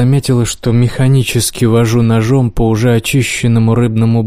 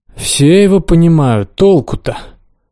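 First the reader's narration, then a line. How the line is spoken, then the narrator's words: Sighing. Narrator (Russian): Лиза вздохнула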